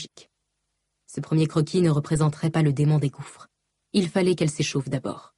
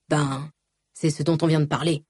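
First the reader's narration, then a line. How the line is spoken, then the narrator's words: Grumbled. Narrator (French): grommela-t-il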